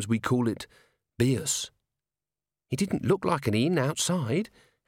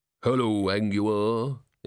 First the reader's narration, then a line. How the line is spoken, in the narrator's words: said in a deep, rolling voice